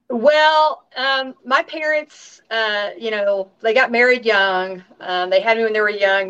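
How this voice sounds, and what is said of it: Southern American accent. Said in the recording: “that great Southern accent”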